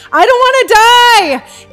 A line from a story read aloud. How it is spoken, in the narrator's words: The soul of Joe runs as fast as he can in the opposite direction of the light, screaming